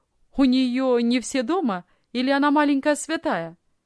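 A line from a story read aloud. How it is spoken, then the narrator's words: Cheerful young man asking. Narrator (Russian): весело спросил молодой офицер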